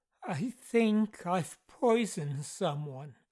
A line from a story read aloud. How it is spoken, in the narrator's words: his assistant, Edward Marsden, had stammered